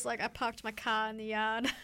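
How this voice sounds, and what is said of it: Poor attempt at Boston accent. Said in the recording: “I can't do a good Boston accent ... It's terrible. I can't do accents at all.”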